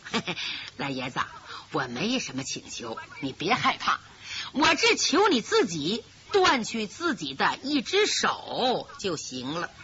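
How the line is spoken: Snickering. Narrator (Chinese): 李明嘻嘻一笑

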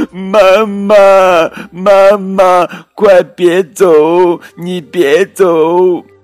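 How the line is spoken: Children crying out. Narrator (Chinese): 孩子们哭叫着

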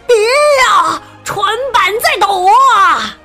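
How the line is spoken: Loud shouting. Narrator (Chinese): 海盗们大声叫起来

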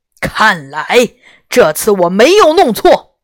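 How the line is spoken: Deep roar. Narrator (Chinese): 白光里的东西用低沉的声音吼道

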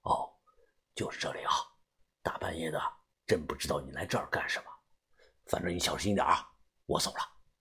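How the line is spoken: Quiet voice. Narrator (Chinese): 司机对着我小声的说道

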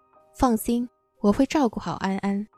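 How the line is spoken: Warm, smiling. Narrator (Chinese): 傅君言也朝我笑…先开口道

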